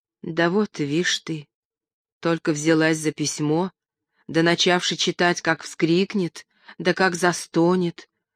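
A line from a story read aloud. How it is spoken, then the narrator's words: Worried whisper. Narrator (Russian): озабоченно зашептала Аннушка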